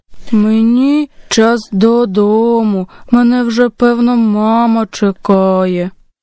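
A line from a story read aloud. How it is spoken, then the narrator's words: Sad bear cub. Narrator (Ukrainian): ведмежа сумно … сказало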